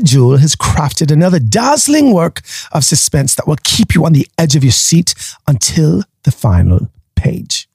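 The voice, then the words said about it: Bad put-on British accent. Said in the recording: “a horrible British accent”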